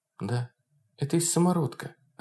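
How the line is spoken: Quiet. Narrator (Russian): ответила тихо Тамара

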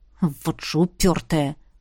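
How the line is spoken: Grumble. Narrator (Russian): Буркнул князь

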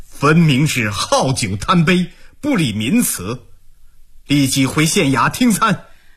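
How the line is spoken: Stern, sneering rebuke. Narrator (Chinese): 毛鹏冷笑数声，声色俱厉地训斥道

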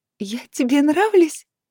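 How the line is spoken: Excited girlish squeak. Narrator (Russian): пропищала я, как восторженная школьница

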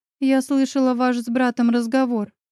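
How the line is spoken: Hesitant, lip bitten. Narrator (Russian): закусив губу, неуверенно начала я

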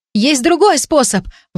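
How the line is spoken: Exclamation. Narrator (Russian): воскликнула рядом Агнес

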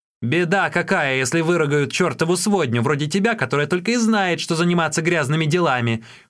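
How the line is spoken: Yelled. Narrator (Russian): заорал Юньге

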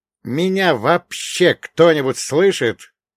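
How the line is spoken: Mental full-force yell. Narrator (Russian): Ментально гаркнул я со всей дури, вновь усиливая сигнал магии

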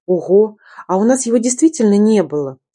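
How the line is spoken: Joyful exclamation. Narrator (Russian): радостно воскликнула я

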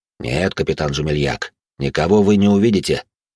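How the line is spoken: Cold, through teeth. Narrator (Russian): холодным тоном процедил дознаватель

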